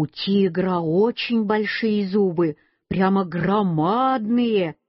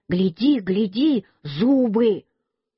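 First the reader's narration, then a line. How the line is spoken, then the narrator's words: Shouted. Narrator (Russian): Петя мне крикнул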